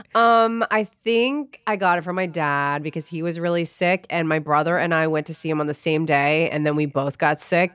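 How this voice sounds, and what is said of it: Voice sounding sick with flu. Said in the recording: “You can hear it in my voice that I am getting over a sickness ... a gnarly flu”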